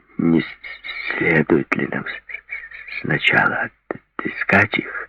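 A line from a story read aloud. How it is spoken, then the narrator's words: Strained, forced out. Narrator (Russian): выдавил из себя Джереми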